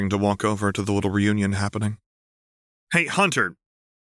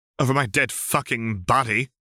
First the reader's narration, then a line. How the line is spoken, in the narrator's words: Vriska hissed